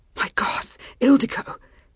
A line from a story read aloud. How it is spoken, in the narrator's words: managed to gasp out between thrusts